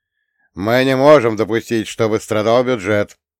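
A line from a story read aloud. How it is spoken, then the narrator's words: Stern reply. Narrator (Russian): строго ответил Грамп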